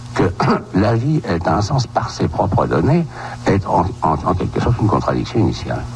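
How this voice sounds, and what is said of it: Old-fashioned 1960s French accent. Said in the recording (French): “ce bel accent, effectivement, ... de l'époque”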